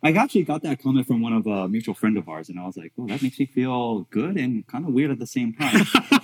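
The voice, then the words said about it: Smooth silky podcast voice. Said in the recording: “podcast voice amazing? Like, I didn't realize how good your podcast voice was ... this is like jazz, like silk.”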